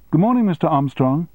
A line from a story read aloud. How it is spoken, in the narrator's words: said cheerfully